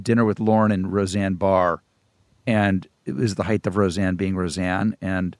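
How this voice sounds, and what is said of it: Usual voice. Nothing is said of it.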